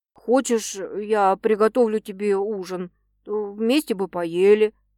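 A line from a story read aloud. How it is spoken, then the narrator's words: Uncertain offer. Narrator (Russian): неуверенно предлагает Кузнецов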